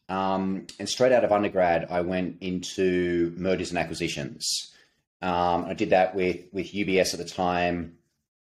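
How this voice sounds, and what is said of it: Australian accent. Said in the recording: “clearly the accent, you can tell born and raised in Australia”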